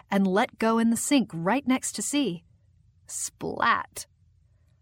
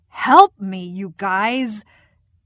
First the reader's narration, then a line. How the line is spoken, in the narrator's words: absolutely crying with laughter